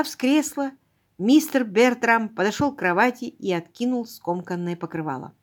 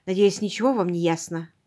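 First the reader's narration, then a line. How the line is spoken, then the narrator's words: Muttering. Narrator (Russian): пробормотал он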